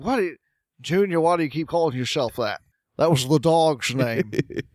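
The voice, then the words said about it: Imitates another person's voice. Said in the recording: “That's a pretty good impression. That's good.”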